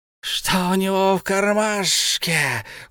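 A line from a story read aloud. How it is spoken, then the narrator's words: Loud hiss. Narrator (Russian): услышал он громкое шипение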